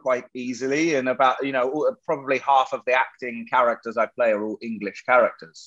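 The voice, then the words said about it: American accent. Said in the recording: “I sound like an American”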